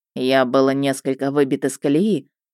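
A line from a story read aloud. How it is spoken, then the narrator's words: Even tone. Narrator (Russian): произнес Мердок ровным тоном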